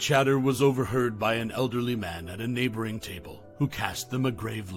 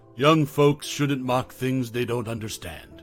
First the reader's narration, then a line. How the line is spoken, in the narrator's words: he warned, his voice deep and somber